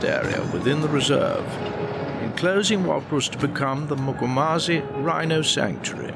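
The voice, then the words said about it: Refined English accent. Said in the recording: “I want that voice... I think you have to be from England and you have to do a lot of Shakespeare to get that voice... he's got the best accent ever”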